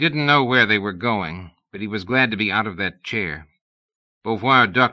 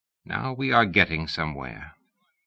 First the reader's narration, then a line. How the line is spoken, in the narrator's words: Beauvoir said quietly